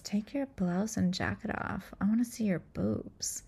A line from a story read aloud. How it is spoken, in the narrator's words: Jennifer whispers in Mimi's ear and says